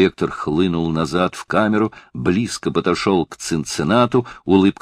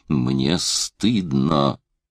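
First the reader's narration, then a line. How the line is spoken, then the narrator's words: Hissed through teeth. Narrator (Russian): просвистел он сквозь зубы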